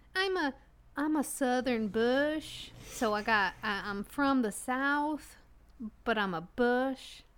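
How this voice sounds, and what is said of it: Slow put-on Southern accent. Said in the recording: “I can do that better. ... I worked on the accent for a long time. ... less fancy. Like this. It's a little slower.”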